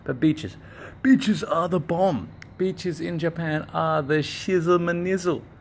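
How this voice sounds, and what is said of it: Australian speaker, slightly British accent. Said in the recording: “maybe my accent is a little bit strange for you because I'm Australian, but I'm speaking in a slightly British accent”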